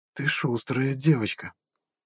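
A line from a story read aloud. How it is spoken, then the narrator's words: Thoughtful whisper. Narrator (Russian): задумчиво прошептала женщина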